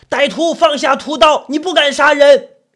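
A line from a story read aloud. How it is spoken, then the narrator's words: Loud, running, continuous shouting. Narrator (Chinese): 一名中年瘦削男子急奔而至，一边大声不停的叫喊着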